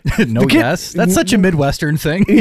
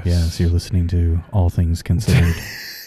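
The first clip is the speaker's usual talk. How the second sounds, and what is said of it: NPR radio announcer voice. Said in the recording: “NPR voice.”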